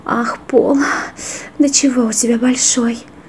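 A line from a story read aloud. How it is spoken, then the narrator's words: Sighing. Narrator (Russian): вздохнула она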